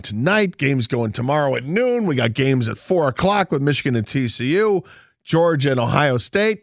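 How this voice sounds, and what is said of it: Hoarse, worn-out voice. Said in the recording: “My voice is shot. ... maybe you should stop yelling.”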